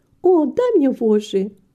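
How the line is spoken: Exclaiming. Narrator (Russian): воскликнула Рита

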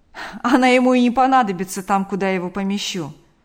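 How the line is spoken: Laughing reply. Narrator (Russian): откликнулся комендант, рассмеявшись

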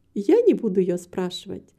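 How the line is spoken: Laughing reply. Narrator (Russian): ответила, смеясь, миссис Мабрей

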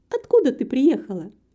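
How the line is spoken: Cheerful question. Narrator (Russian): весело спросила Антонетта

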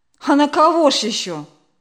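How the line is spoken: Angry reply. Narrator (Russian): сердито ответила Инна мать

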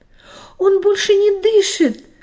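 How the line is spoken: Frightened grandmother screaming. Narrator (Russian): испуганно закричала бабушка

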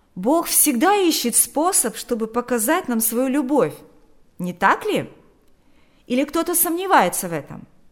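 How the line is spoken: Shout after someone. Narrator (Russian): Берни крикнул вслед

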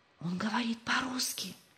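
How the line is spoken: Whisper. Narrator (Russian): прошептал Рувим

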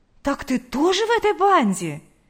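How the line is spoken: Exclaimed. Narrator (Russian): Воскликнула Лидия Гавриловна

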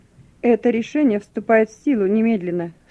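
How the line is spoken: Stern officer. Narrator (Russian): строго сказал дежурный офицер

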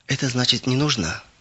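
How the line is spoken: Sad. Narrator (Russian): грустно сказал он

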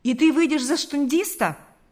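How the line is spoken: Exclamation. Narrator (Russian): воскликнул Карп

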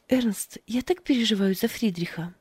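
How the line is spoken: Sighing. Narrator (Russian): вздохнула Фрида

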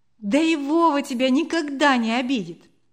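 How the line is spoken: Laughing girl, soothing. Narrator (Russian): засмеялась девочка, успокаивая питомца

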